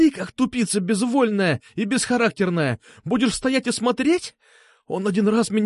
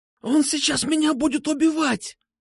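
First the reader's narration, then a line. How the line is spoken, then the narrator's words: Wheezing. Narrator (Russian): засипел Петрушка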